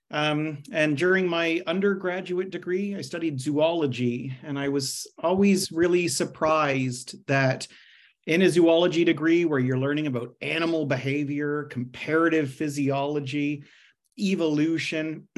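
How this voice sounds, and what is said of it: Canadian English accent. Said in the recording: “as the accent might betray, I'm not Australian, but I'm rather from Canada”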